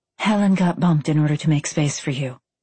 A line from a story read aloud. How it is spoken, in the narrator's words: she whispered